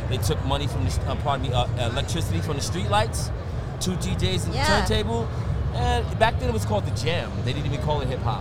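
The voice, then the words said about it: Brooklyn New York accent. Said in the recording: “Are you from New York? ... Brooklyn ... You can't tell by the voice. ... You can't tell by my fucking accent over here.”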